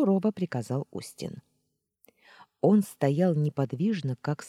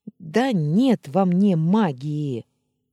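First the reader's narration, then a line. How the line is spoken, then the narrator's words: Exasperated moan. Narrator (Russian): Не выдержав, простонала я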